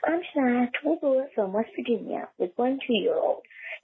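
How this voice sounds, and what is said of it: Whispering. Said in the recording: “if you're wondering why I'm whispering,”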